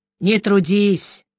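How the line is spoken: Sighing. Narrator (Russian): вздохнул Нуфлин

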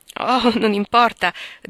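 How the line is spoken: Laughing. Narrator (Italian): disse ridendo Lori

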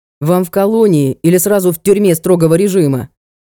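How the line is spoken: Resentful growl. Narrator (Russian): рыкнул обиженный охранник

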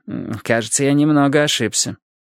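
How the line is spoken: Grumbling mutter. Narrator (Russian): Милос только буркнул

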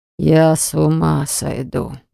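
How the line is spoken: Inward groan. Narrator (Russian): простонал он про себя

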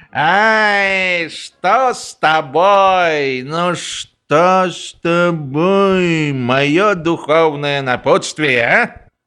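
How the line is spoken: Drunken familiar question. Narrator (Russian): Генерал Финк, в последнее время обращавшийся с фельдкуратом весьма фамильярно, пьяным голосом спросил

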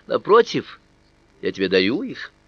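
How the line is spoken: Friendly reply. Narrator (Russian): Она ответила тем же дружелюбным тоном

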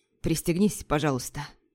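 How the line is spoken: Husky grumble, dandy. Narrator (Russian): хрипловатым голосом проворчал пижон

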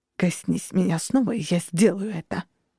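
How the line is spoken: Hissed. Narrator (Russian): прошипел

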